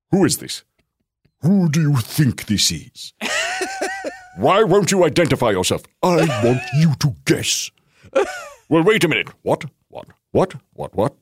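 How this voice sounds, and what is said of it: Imitates another person's voice. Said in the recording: “Here's my impression of Patrick Stewart receiving a crank call from a very stoned Ian McKellen.”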